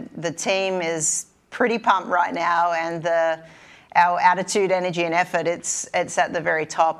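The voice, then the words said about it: Kentucky accent. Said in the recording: “I just miss that Kentucky accent so much”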